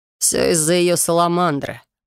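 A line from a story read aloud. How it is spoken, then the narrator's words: Growl. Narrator (Russian): рыкнул Корнуэлл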